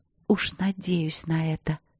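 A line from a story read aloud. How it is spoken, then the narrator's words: Hot, provocative whisper. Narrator (Russian): сказала она провоцирующим жарким шепотом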